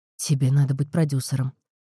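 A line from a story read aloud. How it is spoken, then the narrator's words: Sigh. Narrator (Russian): вздохнул Джонни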